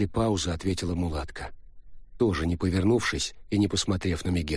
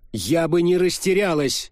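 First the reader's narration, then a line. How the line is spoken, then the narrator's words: Sudden shout. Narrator (Russian): неожиданно выкрикнула Мегера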